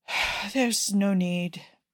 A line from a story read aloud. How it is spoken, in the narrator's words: Cesare sighs, his shoulders slumping